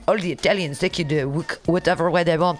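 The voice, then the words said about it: Put-on accent that sounds French. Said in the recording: “Oh, no, that's a French accent.”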